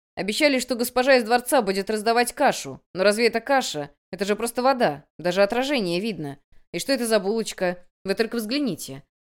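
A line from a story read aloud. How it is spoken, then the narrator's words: Angry shouting refugee. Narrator (Russian): Один из беженцев в сердцах сердито закричал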